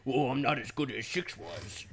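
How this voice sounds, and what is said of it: Put-on big dumb guy voice. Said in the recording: “I don't know why I'm giving him like a big dumb guy accent”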